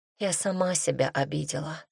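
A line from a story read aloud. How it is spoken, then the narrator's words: Girl whispering. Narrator (Russian): прошептала девушка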